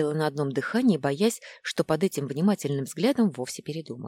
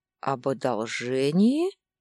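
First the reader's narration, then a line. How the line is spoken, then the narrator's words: Man drawling. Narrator (Russian): протянул мужчина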